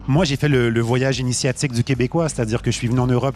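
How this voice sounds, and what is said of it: Québécois French accent. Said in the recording (French): “On le reconnaît à ton accent, t'es québécois.”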